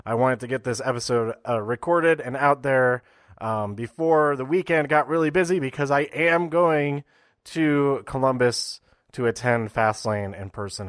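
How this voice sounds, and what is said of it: Wonky, unwell-sounding voice. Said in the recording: “as you might be able to tell, my voice is a bit wonky because I am sick”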